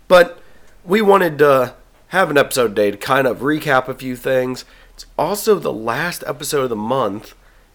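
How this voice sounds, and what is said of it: Congested, slightly off voice. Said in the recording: “I have a sinus thing, so my voice might sound a little bit off”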